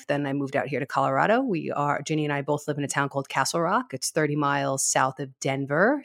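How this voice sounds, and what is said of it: New York accent. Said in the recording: “I'm literally obsessed with your accent ... that New Yorker accent”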